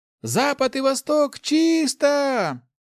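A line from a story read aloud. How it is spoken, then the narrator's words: Shout. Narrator (Russian): закричала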